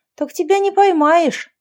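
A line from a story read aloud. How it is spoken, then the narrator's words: Indignant retort. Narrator (Russian): возмущенно парировала я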